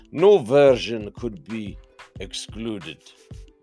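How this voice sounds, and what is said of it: Poor put-on Russian accent. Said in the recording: “That's my best Russian. Sorry, I've got no idea how to do a Russian accent.”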